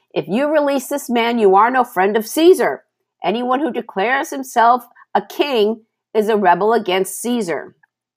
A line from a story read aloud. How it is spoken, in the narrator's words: the Jewish leader shouted